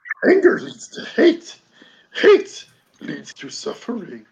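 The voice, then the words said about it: Good Yoda impression, broken-English voice. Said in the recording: “that was a good impression ... broken English tenor”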